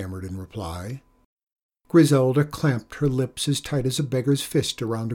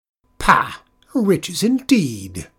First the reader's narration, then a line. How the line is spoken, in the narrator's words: scoffed Griselda